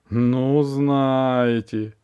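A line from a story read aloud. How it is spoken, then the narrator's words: Dry curt interruption. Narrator (Russian): сухо оборвал его Истигнеев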